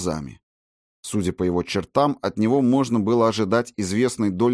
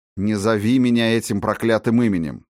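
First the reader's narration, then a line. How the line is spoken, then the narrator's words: Grumbling. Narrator (Russian): проворчал Макферлин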